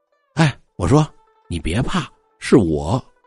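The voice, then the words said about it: Soft quiet speaking voice. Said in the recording (Chinese): “小声就说话了”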